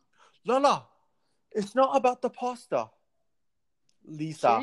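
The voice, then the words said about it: Poor put-on British accent. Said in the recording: “I'm not good at British accents at all.”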